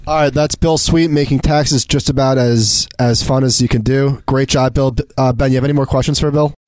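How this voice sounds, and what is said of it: Congested voice from a cold. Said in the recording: “I have a cold”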